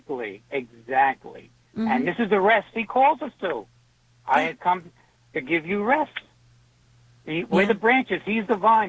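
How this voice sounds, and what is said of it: New York accent. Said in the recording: “I love that New York accent”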